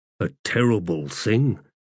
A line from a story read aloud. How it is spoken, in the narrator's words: muttered Stormy